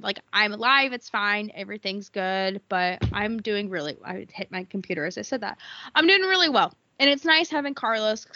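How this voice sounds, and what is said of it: Stuffy, congested voice. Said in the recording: “sorry if I sound stuffy now. For some reason, my medication makes me really stuffy ... they give you a stuffy nose”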